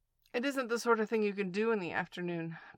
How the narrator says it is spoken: Piglet said quickly

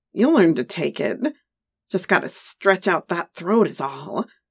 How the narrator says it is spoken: He laughed and said

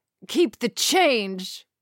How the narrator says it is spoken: GLaDI yelled, rushing out of the cab

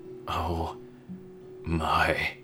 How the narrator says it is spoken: he whispered

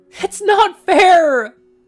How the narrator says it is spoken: He sobbed to his parents

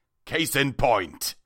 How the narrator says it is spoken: he snapped

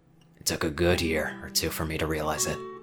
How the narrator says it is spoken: he whispered

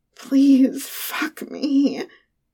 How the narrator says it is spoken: whines

